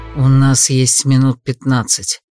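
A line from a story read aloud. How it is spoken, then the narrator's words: Quiet speech. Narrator (Russian): тихо проговорил Эрик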